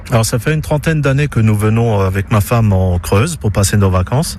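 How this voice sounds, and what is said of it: Alsatian accent in French. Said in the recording (French): “Il est Alsacien... Je suis de Strasbourg. Et je pense que mon accent vous le trahit assez aisément.”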